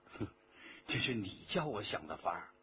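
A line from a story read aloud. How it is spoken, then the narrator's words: Low laughing voice. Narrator (Chinese): 徐天红笑着低声说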